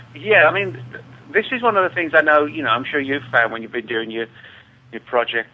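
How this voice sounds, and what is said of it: English accent. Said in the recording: “That's my English accent”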